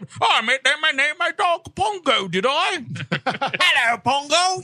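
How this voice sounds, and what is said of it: Put-on English accent. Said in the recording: “it does sound okay in an English accent”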